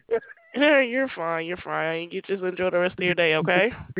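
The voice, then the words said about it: Southern US accent. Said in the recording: “your accent ... I'm from the South ... South, yeah, because it sounds like it ... your accent sounds nice”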